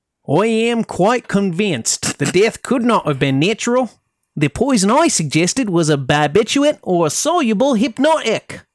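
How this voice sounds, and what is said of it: Put-on Australian accent, slightly Southern. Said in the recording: “In the accent. ... But it's also a little southern too. ... On being an Australian accent or being Cockney? ... I would say maybe a 5. I've heard worse.”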